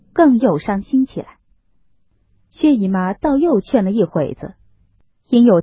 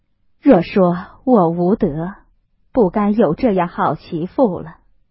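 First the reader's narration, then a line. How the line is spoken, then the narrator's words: Sighing. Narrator (Chinese): 王夫人 叹道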